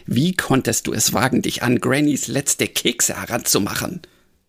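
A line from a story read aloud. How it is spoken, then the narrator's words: Hissing tomcat. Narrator (German): fauchte der Meerkater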